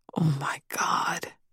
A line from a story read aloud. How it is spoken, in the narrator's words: Dolores whispered under her breath